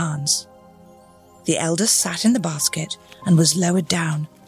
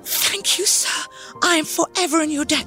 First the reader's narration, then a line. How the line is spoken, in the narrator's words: cried